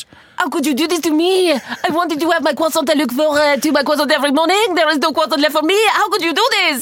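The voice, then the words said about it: Angry woman, put-on French accent. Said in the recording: “She loves doing accents ... Do a French angry lady who found out that all the croissants are sold out.”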